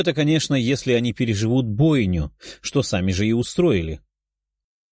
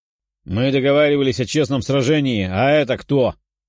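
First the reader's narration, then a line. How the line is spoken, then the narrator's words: Barked. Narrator (Russian): рявкнул один из одаренных на развитии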